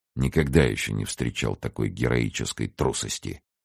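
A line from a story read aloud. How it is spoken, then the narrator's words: Mutter. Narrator (Russian): пробормотал он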